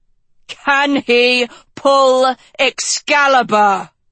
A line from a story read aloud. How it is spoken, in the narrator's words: Tedros yelled